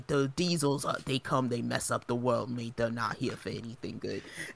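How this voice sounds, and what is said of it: Put-on accent imitating film character. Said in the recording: “You're really good at the accent. ... Is that like Australian? ... gave me like Jason Statham vibes.”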